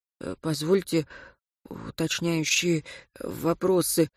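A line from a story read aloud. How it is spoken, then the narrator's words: Hoarse wheeze. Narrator (Russian): просипел Сергей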